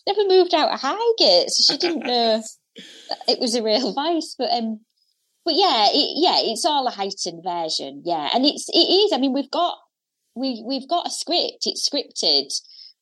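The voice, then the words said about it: Hull accent. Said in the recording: “the accent, being from Hull”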